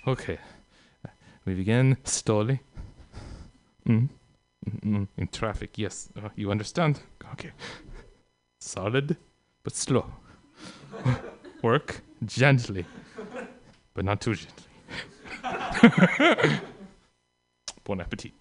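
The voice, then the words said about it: Put-on French accent. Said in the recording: “in a French accent”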